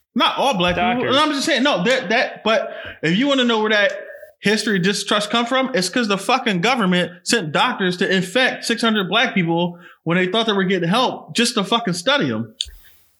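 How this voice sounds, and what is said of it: Yelling, loud passionate speech. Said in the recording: “Why are you yelling at me? ... Shouting at me. ... I got a little passionate.”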